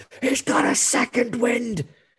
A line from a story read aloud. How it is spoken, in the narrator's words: she's been screaming the whole night, screams